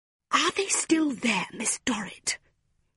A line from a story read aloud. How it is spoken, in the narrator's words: hissed Mrs